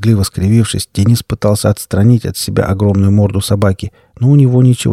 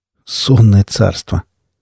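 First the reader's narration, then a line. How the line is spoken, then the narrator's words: Displeased snort. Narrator (Russian): Недовольно хмыкнув, Денис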